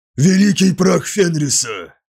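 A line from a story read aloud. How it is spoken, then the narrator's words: Hiss. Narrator (Russian): прошипел Скарсон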